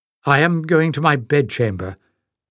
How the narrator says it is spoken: she said stiffly to Chan

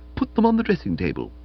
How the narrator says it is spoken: said stiffly

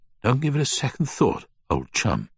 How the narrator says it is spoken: George said between breaths

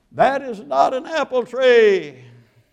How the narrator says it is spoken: shout

